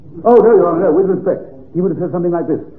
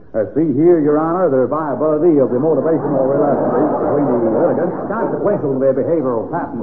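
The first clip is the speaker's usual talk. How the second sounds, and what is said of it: Exaggerated put-on American lawyer accent. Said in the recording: “listening to a United States attorney pleading a cause in Wisconsin ... that horrible accent for the private theatricals”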